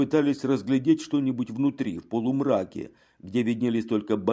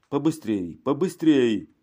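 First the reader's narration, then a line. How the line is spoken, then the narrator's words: Shouting. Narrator (Russian): кричал Женаро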